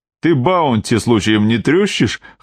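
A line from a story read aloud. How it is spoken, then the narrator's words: Smug chuckle. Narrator (Russian): хмыкнул он, довольный своей шуткой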